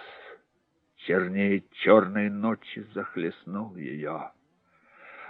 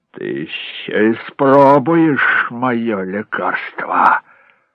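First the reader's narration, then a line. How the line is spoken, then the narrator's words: Hissed. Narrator (Russian): прошипел Джек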